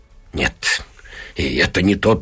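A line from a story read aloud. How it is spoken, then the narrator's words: Female mumbling. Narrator (Russian): бормочет она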